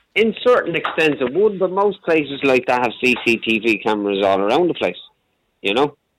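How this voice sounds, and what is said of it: Dublin Irish accent. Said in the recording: “I used to live in Dublin for a long time, hence the accent.”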